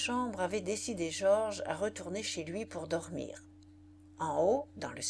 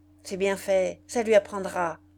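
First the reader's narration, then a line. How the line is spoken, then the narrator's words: Curt, clipped. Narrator (French): lâcha-t-elle d'une voix brève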